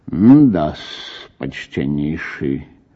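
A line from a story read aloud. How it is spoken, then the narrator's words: Thoughtful mutter. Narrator (Russian): пробормотал мировой в раздумии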